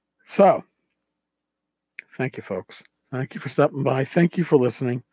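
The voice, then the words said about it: Strained, fading voice. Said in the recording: “I'm losing my voice a little bit at the end.”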